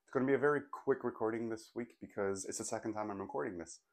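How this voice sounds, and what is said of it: Hoarse, sore-throat voice. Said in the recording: “with a sore throat ... my voice is not up to par ... I sound like a wah, wah, goose”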